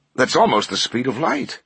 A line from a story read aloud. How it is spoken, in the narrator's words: one of the professors exclaimed